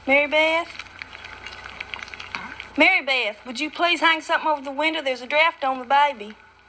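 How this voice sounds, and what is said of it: Thick Arkansas accent. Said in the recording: “this really thick-ass Arkansas accent calling out”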